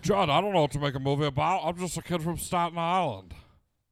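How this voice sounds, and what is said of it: Imitates another person's voice. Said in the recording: “the master impersonator's back, baby... I'm so good at impressions.”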